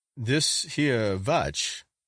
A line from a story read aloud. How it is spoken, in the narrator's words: said Mr